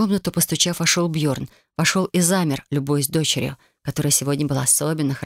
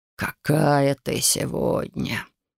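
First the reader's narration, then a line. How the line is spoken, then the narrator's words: Sighing. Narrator (Russian): вздохнул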